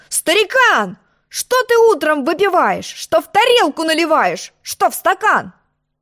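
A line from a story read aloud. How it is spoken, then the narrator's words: Angry shout. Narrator (Russian): Я сердито закричал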